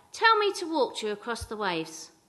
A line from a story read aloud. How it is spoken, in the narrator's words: shouted back